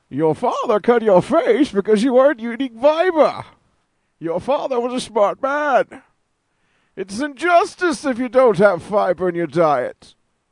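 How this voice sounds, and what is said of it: Put-on movie villain voice, poorly done. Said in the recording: “Bane? ... Your Bane sucks. ... It's all the fucking same voice.”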